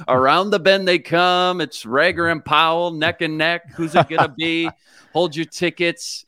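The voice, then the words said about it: Horse racing announcer voice. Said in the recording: “Give us a little quick horse racing announcer voice.”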